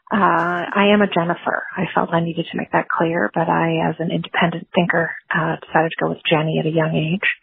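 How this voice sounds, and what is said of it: Whispering. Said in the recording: “I'm calling from the basement of the library where I work. So I'm whispering.”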